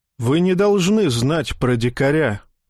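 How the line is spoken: Gloomy. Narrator (Russian): уныло сообщил брюнет

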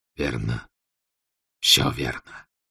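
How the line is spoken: Hoarse. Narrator (Russian): прохрипел Субудай Богатур

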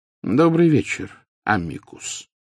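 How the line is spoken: Calm, casual greeting. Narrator (Russian): спокойно произнес Дамблдор, словно приветствуя гостя, явившегося на чашку чая

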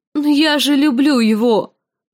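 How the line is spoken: Moaning, confused and frightened. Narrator (Russian): простонала Санса в смятении и испуге

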